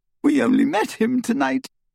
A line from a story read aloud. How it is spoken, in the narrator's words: Hermione sobbed